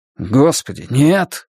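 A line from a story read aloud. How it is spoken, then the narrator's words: Exclaiming. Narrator (Russian): воскликнул Стью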